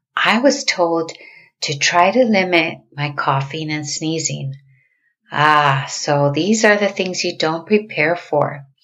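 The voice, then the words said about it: Sick, altered-sounding voice. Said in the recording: “I got sick as well. That's why you hear me with a different tone of voice today.”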